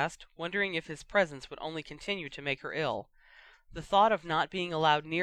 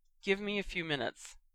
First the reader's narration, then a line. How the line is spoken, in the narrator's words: Remus said